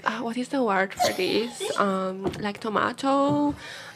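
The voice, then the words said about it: Put-on accent, done well. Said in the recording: “Your accent game is strong. ... Yeah, very good. No, it's very on strong.”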